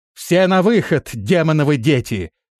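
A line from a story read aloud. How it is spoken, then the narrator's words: Shouting. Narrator (Russian): крикнула Мордаиба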